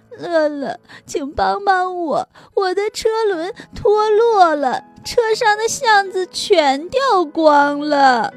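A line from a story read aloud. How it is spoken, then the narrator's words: Crying. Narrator (Chinese): 米米哭着说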